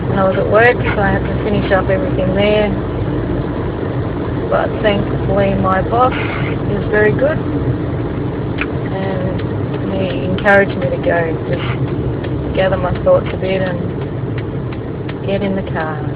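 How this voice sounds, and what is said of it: Flat, subdued, sad voice. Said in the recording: “I can probably hear it in my voice. I'm a bit flat.”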